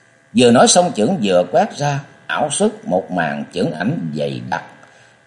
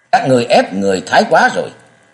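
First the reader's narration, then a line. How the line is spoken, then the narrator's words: Shouted loudly through gritted teeth. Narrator (Vietnamese): Chàng nghiến răng quát lớn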